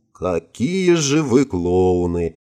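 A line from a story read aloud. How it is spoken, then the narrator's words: Sighing. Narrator (Russian): вздохнула Иришка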